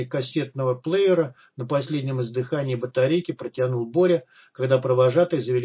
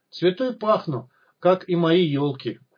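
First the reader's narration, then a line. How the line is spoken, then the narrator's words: Joyful exclamation. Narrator (Russian): радостно воскликнул Снежок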